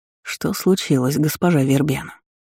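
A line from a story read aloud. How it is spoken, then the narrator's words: Insistent whisper. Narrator (Russian): Тихону напористо шепнул Фуке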